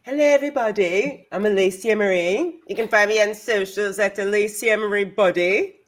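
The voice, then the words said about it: Put-on accent. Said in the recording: “No idea why I'm using an accent. It's just fun.”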